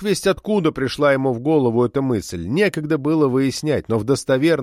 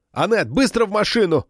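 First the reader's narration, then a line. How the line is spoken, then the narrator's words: Shouting. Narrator (Russian): крикнул Габриэль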